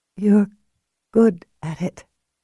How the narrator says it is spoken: she said shakily

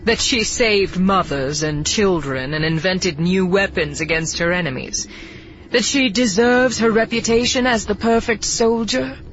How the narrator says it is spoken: He scoffs

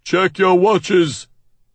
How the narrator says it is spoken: he merely shouts

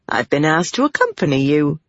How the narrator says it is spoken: Pavara said cheerfully

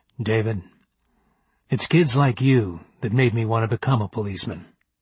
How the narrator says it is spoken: said in a deep voice

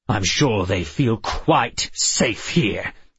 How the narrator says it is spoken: he snarled

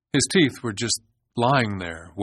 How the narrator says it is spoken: Wayne said

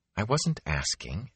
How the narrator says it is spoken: Egwene muttered into her cloak

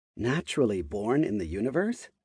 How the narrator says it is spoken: She muttered

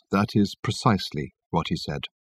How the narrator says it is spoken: said Reg at last in a subdued voice

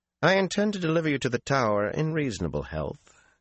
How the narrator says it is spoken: Galena said coldly

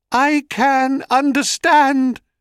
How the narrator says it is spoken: cried Echo

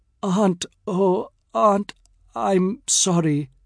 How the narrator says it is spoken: her chest heaves, and the boy Salim stammers

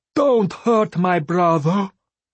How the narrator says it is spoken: Vindalaya wailed

